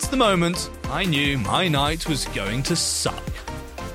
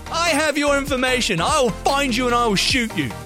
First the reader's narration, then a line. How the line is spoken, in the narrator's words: The dude loses his shit even more and yells back